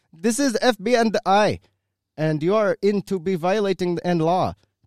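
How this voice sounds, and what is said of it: Put-on foreign accent, exaggerated. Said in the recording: “I'm going to do my best weird, like, Haji accent.”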